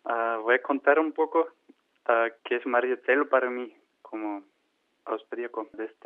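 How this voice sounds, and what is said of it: Spanish with a Mexican accent. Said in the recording (Spanish): “austríaco con acento mexicano”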